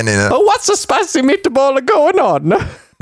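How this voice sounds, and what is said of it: Put-on Italian accent, drifting. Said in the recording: “Was that meant to be Italian?... Yeah... it started Asian and it went Italian”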